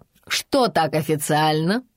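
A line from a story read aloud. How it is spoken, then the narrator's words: Laughter over the phone. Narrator (Russian): засмеялись из телефона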